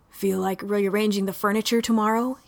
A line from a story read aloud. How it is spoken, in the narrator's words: he breathed in a voice that hovered on the bare edge of humanity